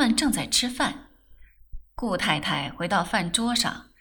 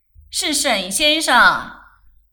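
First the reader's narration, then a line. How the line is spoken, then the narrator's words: Shout. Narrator (Chinese): 他向曼桢嚷了声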